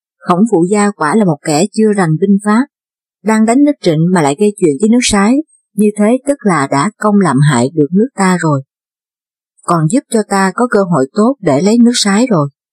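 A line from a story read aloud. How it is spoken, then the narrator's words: Loud laughing speech. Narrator (Vietnamese): Trịnh Trang Công cười lớn nói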